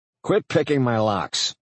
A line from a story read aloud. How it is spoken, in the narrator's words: I said, as sternly as you can to a rabbit wearing an apron